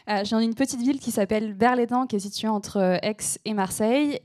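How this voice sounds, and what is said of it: Slight southern French accent. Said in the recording (French): “je viens du sud de la France, donc parfois vous entendrez un peu mon accent”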